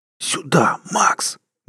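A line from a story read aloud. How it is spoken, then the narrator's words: Loud commanding whisper. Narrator (Russian): Громким шепотом приказал он псу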